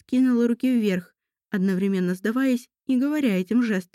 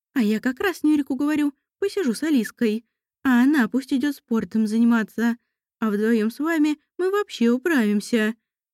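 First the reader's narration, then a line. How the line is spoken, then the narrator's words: Exaggeratedly cheerful. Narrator (Russian): преувеличенно бодро заявила Валерия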